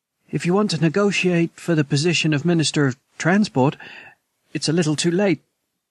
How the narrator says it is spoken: Yan Yan said nervously

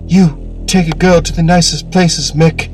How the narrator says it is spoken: she moaned

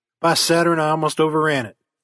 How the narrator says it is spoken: he exclaimed

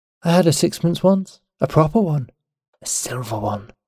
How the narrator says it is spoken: murmured, in the dreamy voice in which she sometimes told her tales

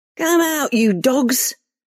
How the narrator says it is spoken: Reva shouted into the darkness

